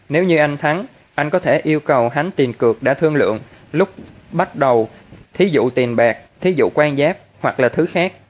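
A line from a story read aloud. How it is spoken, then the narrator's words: Stammering, at a loss. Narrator (Vietnamese): Hoa Bách đau đầu vô cùng, hồi lâu sau mới lắp ba lắp bắp nói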